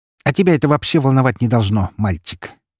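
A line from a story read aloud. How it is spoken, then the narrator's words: Snorted, witch. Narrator (Russian): фыркнула ведьма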